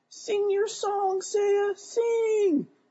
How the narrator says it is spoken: I squeaked out as loudly as I could

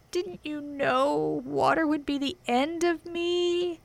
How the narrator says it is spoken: asked the witch in a wailing, despairing voice

